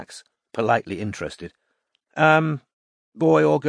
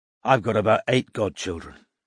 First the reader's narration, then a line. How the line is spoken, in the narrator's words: said Max gloomily